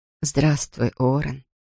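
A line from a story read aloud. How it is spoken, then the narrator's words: Whisper. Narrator (Russian): прошептала Айрис Китинг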